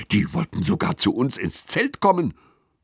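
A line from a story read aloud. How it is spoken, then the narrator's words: Hissing. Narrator (German): zischt Lilly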